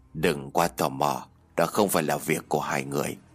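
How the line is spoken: Soft quick reply. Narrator (Vietnamese): Ông Vương liền khẽ đáp

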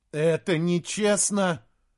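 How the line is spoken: Tearful repetition. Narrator (Russian): уже, наверное, в сотый раз повторял сквозь слезы Саймон

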